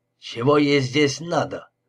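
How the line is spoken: Rude question. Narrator (Russian): грубо поинтересовался

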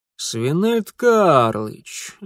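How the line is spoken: Father's sudden drawl. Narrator (Russian): вдруг протянул отец

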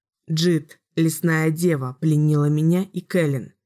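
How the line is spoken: Plain. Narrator (Russian): ответил Ричард

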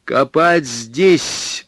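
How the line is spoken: Read aloud loudly. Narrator (Russian): прочел он громко

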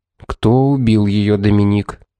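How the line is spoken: Grim question. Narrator (Russian): мрачно спросил суперинтендант

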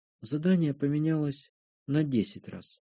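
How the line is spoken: Sad telling. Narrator (Russian): грустно поведала Кара

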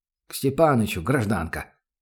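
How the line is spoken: Muttering under breath. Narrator (Russian): На ходу буркнула себе под нос

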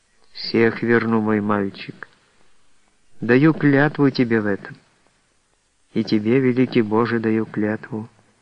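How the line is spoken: Barely audible. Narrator (Russian): произнесла Елизавета чуть слышно

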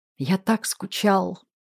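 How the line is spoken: Whisper. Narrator (Russian): прошептал Русланов

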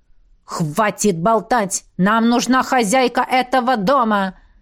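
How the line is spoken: Exasperated barking. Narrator (Russian): Рявкнул доведенный до белого коленя стражник

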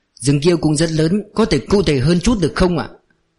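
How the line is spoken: Plain. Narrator (Vietnamese): Hàn Ấn hỏi

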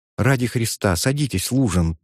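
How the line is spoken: Quiet. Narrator (Russian): тихо говорила она

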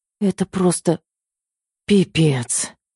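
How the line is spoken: Exhaled. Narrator (Russian): выдохнула

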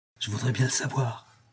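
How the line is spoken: Low voice. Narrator (French): répondit Huckleberry à voix basse

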